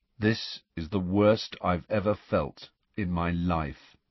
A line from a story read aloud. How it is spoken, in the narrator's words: he said in a dull voice